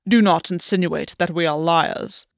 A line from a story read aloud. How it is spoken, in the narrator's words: Albion said, his voice cold, unforgiving